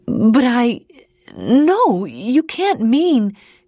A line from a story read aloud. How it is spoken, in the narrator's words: stuttered